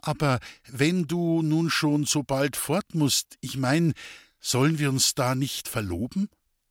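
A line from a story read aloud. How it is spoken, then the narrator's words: Hesitant. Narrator (German): Zögernd begann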